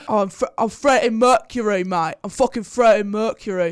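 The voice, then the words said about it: Bad put-on British accent. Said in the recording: “Bad time to have a bad British accent moment.”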